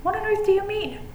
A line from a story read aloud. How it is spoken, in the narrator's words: exclaimed Huey